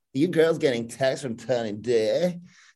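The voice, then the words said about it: Imitates another person's voice. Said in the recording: “I'll do it in Tiffany Strand voice”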